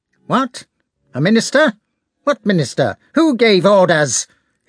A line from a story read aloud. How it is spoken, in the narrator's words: he said in his shrill, harsh voice